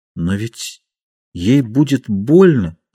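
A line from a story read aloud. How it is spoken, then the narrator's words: Hesitant speech. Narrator (Russian): сказал неуверенно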